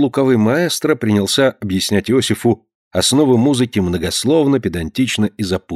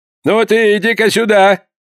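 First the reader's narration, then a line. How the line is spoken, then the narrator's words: Shout. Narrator (Russian): закричал Порпора Иосифу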